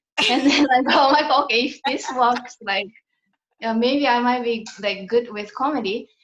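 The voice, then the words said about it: Accented speech that sounds funny. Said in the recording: “because of my accent or like how I deliver and all that, like it just sounds funny apparently”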